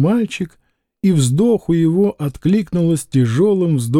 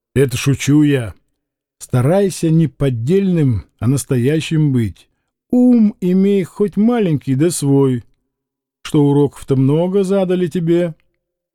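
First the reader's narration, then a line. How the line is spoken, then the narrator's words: Laughing addition. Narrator (Russian): смеясь своему сравнению, Игнат добавил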